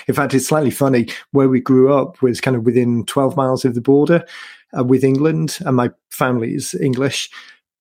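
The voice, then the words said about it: British accent, not Welsh. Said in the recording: “your accent to not be that of a Texan ... originally from the UK. originally actually from Wales, but my accent definitely isn't Welsh”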